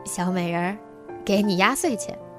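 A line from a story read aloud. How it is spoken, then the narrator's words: Drunk, cheerful, smiling. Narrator (Chinese): 继父 他看上去心情很不错，醉醺醺的 笑眯眯地说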